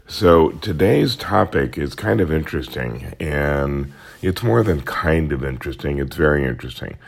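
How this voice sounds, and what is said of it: Unusually weird-sounding voice. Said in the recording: “my very weird voice today. I apologize for that. So, too many miles on the road, I think, and not enough coffee.”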